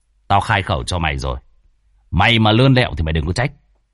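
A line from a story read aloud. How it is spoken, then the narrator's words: Stern voice. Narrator (Vietnamese): cậu nghiêm giọng nói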